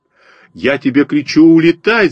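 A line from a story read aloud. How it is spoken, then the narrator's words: Terrified screaming. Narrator (Russian): завопил на меня перепуганный Костя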